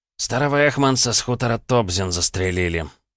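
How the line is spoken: Tired, indifferent voice. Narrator (Russian): усталым голосом оповестил он в который уже раз, но без прежнего интереса

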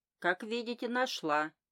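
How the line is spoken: Cheerful. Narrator (Russian): весело сказала

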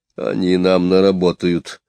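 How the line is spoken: Gruff mutter. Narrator (Russian): буркнул Кричко

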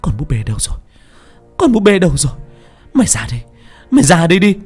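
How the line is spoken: Screaming. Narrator (Vietnamese): Miệng tôi gào thét

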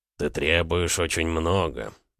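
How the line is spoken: Gruff mutter, rider. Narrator (Russian): буркнул всадник

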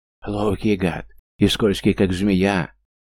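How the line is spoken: Breathless guard yelling. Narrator (Russian): орал запыхавшийся охранник

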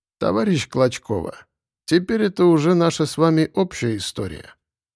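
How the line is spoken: Sad. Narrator (Russian): грустно сказал вождь

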